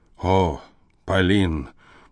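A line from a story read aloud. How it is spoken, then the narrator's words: Tragically detached voice. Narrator (Russian): произнес он трагически отрешенным голосом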